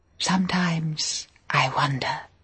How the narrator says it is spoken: whispered

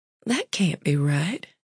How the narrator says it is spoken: she murmured

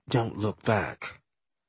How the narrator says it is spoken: she said under her breath

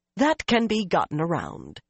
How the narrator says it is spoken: Shiriam said firmly

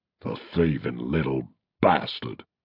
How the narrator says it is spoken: hissed Angus

